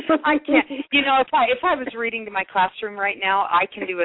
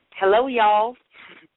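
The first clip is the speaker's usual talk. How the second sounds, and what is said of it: Attempted Southern accent, sounds New York. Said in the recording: “I'm going to try for some Southern ... That sounds a little New York to me.”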